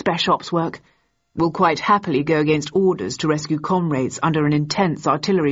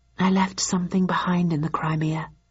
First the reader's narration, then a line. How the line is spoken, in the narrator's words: I murmured